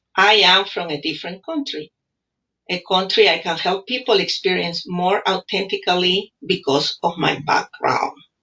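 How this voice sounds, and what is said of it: English with a foreign accent. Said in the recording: “the language barrier ... I'm proud of my accent ... being from Peru”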